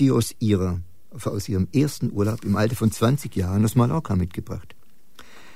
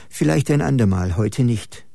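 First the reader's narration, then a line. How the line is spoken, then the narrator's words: Plain. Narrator (German): sagte Hanna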